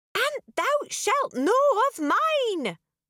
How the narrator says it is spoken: Merida swallowed and shouted

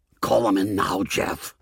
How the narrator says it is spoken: Tony hissed at me angrily

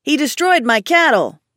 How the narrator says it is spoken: one of the men yelled

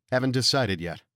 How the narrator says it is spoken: I said

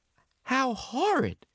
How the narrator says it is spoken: cried Mrs

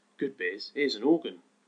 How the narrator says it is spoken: cried half a dozen people at once

